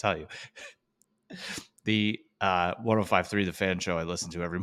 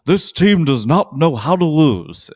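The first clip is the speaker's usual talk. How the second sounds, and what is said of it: Impression of Merrill Reese. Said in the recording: “the Merrill Reese shot ... That's a pretty so good impression”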